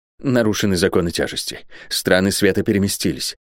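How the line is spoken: Whisper. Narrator (Russian): шептал он

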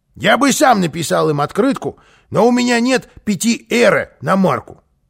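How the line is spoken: Plain. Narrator (Russian): сказал он

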